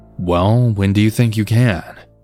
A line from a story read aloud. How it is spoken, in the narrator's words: he asked